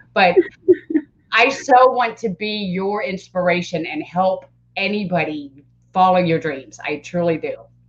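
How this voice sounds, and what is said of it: Teary, emotional voice. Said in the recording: “I, I get teary eyed... my emotions are all right there”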